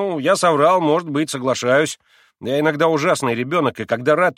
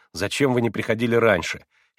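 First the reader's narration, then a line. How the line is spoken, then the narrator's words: Reproachful voice. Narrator (Russian): таким голосом, с укором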